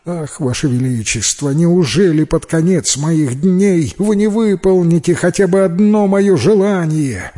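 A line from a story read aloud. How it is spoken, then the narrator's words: Poor tailor's pleading. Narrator (Russian): взмолился бедный портной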